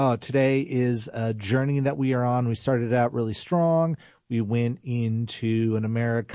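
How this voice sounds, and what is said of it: Usual voice. Nothing is said of it.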